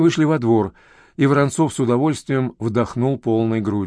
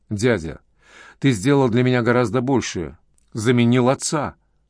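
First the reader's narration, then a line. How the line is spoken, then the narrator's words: Plain. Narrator (Russian): ответил Громов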